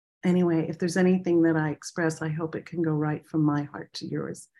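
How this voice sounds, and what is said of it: Short of breath, weakened voice. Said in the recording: “I still have problems getting my full breath, and my voice is a little compromised”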